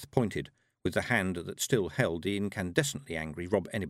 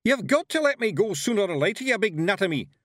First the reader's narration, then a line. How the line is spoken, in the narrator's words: yelled Rob Anybody